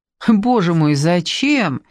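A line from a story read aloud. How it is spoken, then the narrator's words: Laughing. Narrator (Russian): Люба засмеялась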